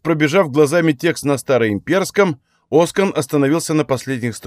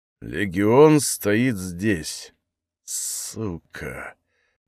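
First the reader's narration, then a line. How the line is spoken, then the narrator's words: Muttering. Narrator (Russian): пробормотал Оскан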